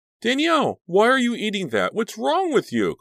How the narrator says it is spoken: Cliff cried in alarm

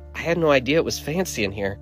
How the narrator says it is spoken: Rebecca whispered into my ear

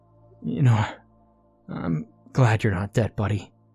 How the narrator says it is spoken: I said to him in a shaky voice

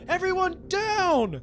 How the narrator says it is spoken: shouted Misfortune

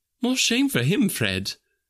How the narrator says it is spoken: says Scrooge's niece indignantly

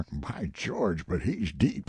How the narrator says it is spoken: Muttered remark

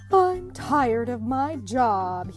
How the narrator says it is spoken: he sighed

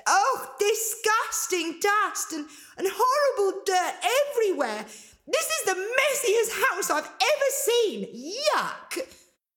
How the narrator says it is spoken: Angelina cried

